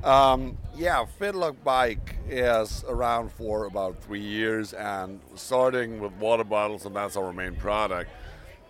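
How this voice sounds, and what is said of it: German accent speaking English. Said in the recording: “He's German, he's got that accent, so you're gonna have to listen clearly ... sorry for my accent, but English is not my native language”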